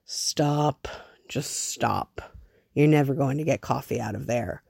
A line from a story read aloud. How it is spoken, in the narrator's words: he hears Harvey rasp